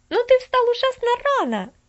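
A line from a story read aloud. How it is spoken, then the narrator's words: Exclaiming. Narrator (Russian): воскликнула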